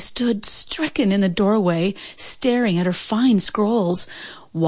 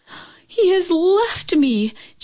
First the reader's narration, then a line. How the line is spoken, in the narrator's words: Chin Yumin cried out